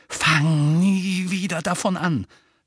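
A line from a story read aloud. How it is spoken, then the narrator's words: Angry hiss. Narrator (German): fauchte Harry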